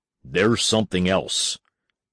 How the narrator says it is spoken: He said firmly

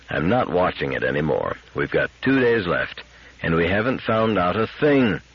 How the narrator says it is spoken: said Donovan almost calmly

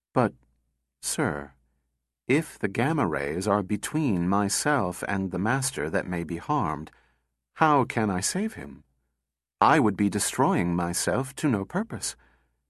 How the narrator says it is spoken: slowly

